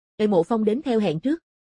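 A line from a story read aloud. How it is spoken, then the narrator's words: Raised voice calling. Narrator (Vietnamese): Mộ Phong cao giọng gọi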